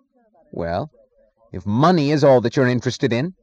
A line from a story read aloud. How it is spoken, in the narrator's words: he snapped